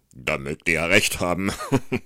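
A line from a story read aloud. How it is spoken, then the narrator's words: Reply with a laugh. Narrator (German): erwiderte der andere und lachte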